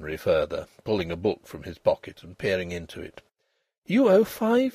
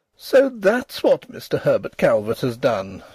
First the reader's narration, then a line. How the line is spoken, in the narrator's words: she exclaimed, amid the embers of her mirth